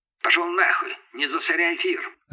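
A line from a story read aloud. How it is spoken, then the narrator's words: Barked over radio. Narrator (Russian): рявкнула рация в ответ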